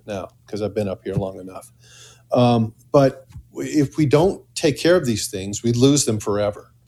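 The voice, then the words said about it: Midwestern American accent. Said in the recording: “as you can hear, I really don't even, I speak with a Midwestern accent”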